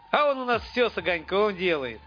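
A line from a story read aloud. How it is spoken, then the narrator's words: Chuckling. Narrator (Russian): хохотнул жерть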